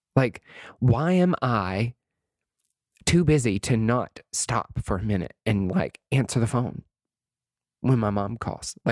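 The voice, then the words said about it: Emotional, choked-up voice. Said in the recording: “I'm sorry, I'm getting emotional,”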